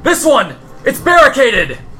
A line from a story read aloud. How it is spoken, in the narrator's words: a guard shout, saying